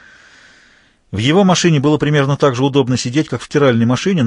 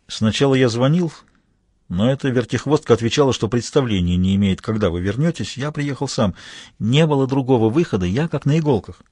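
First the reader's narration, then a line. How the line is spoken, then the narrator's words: Quiet. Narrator (Russian): Хью тихонько сообщил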